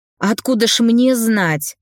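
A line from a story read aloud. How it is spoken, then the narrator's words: Irritated. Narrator (Russian): раздраженно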